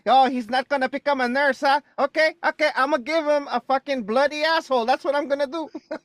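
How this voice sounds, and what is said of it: Put-on Filipino accent, slightly rushed. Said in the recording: “Actually, a pretty good Filipino accent. ... I've been practicing. Did I rush it? ... a little bit. Sounded good though.”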